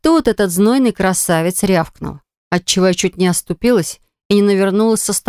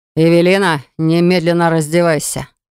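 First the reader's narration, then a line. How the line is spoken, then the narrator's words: Threatening hiss. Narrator (Russian): С угрозой в голосе прошипел Вейнер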